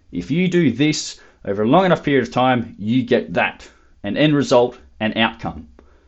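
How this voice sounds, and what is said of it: Raised, louder passionate voice. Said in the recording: “I'm raising my voice a little bit because it's something I'm really passionate about”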